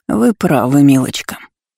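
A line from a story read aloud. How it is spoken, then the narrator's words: Old woman, tight-lipped, through teeth. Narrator (Russian): поджав губы, процедила старуха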